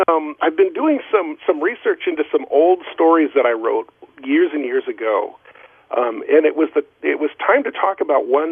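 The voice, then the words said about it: Rough, hoarse voice. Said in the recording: “Just getting over a humdinger of a head cold, so I apologize if I send my voice sounds a little bit rough ... I think my voice is a little rough this morning.”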